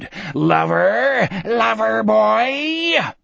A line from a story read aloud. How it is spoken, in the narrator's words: The mouths in the coarse bark howled and screamed